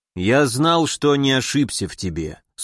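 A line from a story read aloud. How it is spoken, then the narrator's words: Dry reply. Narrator (Russian): сухо отозвался он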